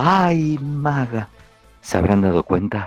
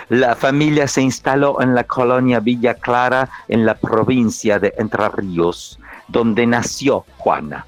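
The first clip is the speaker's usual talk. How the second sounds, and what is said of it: Put-on Russian accent. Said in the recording (Spanish): “te estoy hablando con acento ruso como puedo”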